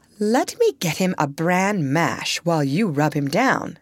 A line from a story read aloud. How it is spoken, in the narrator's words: said the mother